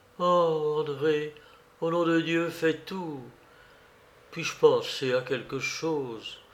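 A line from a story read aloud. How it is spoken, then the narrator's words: Intensified moaning. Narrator (French): Elle gémit de plus belle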